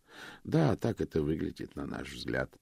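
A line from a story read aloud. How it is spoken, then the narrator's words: Sighing. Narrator (Russian): вздохнул мистер Уилмот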